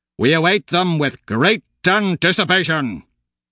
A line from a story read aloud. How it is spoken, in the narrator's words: He roars compliments at passing oranges, with his wide grinning approval